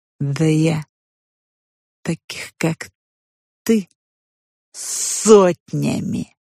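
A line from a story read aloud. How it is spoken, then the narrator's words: Hissing. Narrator (Russian): шипела она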